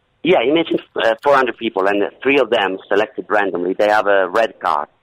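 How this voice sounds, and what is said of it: Non-native English accent. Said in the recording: “they were shocked by my broken English ... my English was really, really difficult to understand for them ... my accent isn't a problem”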